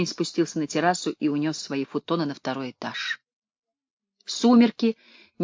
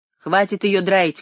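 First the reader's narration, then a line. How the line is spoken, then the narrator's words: Shouting. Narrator (Russian): крикнул я парню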